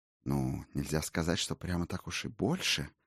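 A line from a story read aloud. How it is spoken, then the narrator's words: Mumbling. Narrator (Russian): промямлил Ульвейн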